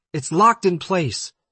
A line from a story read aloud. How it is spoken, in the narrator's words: Jason Day screamed at Dan